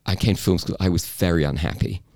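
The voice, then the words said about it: Genuine British accent. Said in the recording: “as you can tell, came from England. This is a genuine British ... accent. You're not faking it.”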